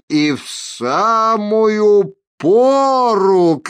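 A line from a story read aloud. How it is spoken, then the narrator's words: Shouted. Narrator (Russian): крикнул лютик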